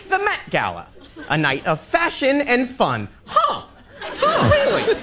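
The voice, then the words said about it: Imitates another person's voice. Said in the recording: “impersonation. It's pretty good ... He's good”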